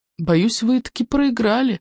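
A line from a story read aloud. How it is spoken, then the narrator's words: Sad reply. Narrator (Russian): печально ответил он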